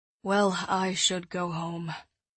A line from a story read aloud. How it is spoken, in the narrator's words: he mumbled